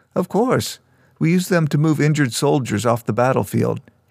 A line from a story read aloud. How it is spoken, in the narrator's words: laughed